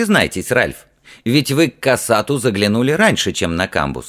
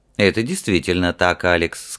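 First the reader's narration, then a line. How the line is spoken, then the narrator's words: Calm but firm. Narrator (Russian): сказал зимородок спокойно, но твердо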